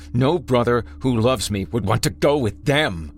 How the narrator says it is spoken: he snarled, spit flying from his slack jaw, teeth melting

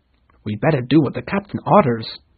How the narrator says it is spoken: said Starkey nervously

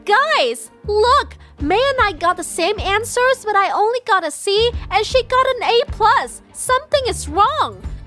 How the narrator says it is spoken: Bella immediately shouted

